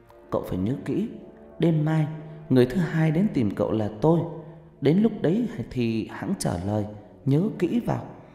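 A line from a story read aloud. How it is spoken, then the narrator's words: Distant windlike whisper. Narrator (Vietnamese): Một giọng nói văng vẳng như tiếng gió thì thào bên tai Thành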